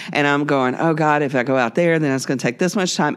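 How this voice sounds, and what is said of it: Panicky, anxious voice. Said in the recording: “as you can tell from my voice, I'm starting to panic”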